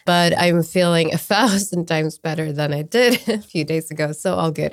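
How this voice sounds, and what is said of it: Voice still weak, not fully recovered. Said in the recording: “As I'm sure our listeners and you can hear, while I have recovered from last week's flu, my voice is still straggling a little bit behind”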